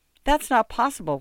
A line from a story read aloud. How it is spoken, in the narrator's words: Juan said